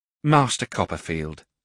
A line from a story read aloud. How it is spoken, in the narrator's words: said Mrs